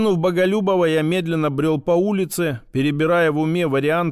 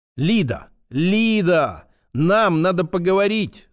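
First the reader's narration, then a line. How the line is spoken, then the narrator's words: Loud shout. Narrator (Russian): закричал на весь дом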